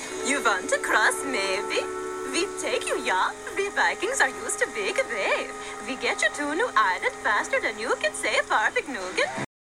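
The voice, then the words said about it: Exaggerated mock Viking accent. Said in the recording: “dressed as Vikings ... complete with the most ridiculous accent you've ever heard ... their accents”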